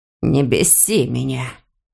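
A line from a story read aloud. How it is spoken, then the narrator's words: Hoarse. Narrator (Russian): хрипит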